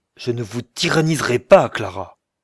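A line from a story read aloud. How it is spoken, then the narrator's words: Exclaimed. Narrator (French): il s'écria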